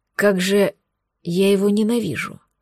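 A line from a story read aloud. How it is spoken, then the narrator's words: Growled. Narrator (Russian): прорычал Сергеев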